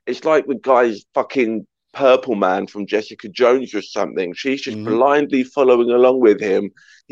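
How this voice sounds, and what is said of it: British accent. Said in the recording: “you're a Brit, I'm a Brit. We know how the Americans fall for a foreign accent.”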